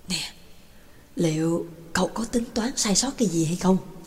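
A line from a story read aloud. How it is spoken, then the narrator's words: Unable to hold back, whispered question. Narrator (Vietnamese): Trường Lập không nén nổi, thì thầm hỏi nhỏ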